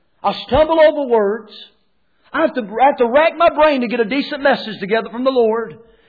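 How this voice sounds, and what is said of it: North Carolina accent. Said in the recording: “I've got a North Carolina accent.”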